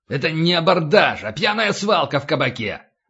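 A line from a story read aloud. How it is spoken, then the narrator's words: Furious bark. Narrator (Russian): гаркнул падальщик, наливаясь кровью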